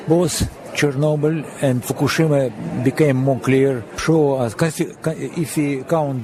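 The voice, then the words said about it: Thick foreign accent. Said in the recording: “Dr. Yablokov has a thick accent”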